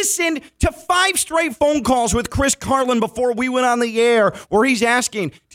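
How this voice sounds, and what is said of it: Usual voice. Nothing is said of it.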